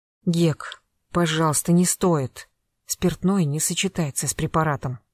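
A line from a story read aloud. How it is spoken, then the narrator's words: Quiet. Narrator (Russian): тихо произнесла Катя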